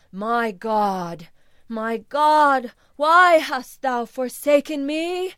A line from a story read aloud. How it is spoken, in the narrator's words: I groaned